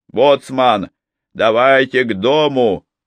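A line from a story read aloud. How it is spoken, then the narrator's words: Shouted. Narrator (Russian): Джейми прокричал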